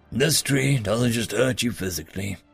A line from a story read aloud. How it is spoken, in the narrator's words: Rael said wisely